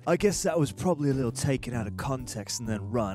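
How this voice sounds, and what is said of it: Put-on British accent. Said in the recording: “in your best and better than Greg British accent”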